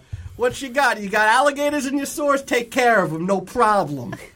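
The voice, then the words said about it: Weird New York Brooklyn accent. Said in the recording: “this witcher has adopted a very weird accent ... You know Geralt is from Brooklyn? ... The New York witcher”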